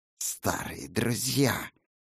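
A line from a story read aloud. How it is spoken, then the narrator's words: Hissed. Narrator (Russian): прошипела оружейница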